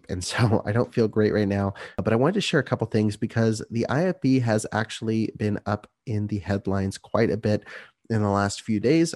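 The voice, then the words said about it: Sick-sounding voice. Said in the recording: “please excuse my voice ... I have been sick as a dog”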